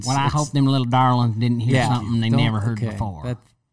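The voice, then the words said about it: Put-on Texas accent. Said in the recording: “I think that's kind of a Texas thing. ... Can you say it with an accent?”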